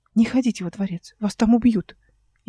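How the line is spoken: Barely audible. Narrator (Russian): еле слышно вымолвил Рушала

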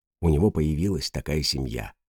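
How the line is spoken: Drugged whisper. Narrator (Russian): шептала она сквозь таблеточный морок

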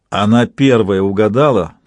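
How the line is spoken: Plain. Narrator (Russian): сказал Совершенный

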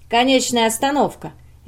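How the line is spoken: Cheerful man. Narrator (Russian): весело сказал мужчина

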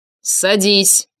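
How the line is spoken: Barked. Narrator (Russian): рявкнул я

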